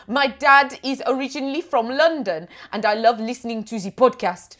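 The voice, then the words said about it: Exaggerated French accent. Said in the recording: “I'm imagining you reading this in a ridiculous German accent ... French ... Why are you going French?”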